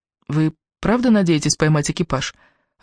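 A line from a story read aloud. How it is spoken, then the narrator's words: Timid question. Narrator (Russian): робко спросила я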